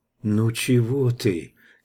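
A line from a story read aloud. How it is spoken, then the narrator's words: Soft whisper in ear. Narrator (Russian): тихонько прошептала она Ивану на ухо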